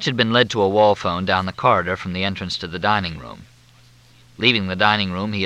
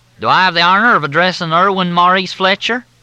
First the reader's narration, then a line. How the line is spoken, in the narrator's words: The drawl was thicker than Mississippi mud